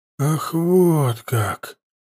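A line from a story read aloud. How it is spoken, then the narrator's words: Drawn-out drawl. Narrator (Russian): протянул Хаста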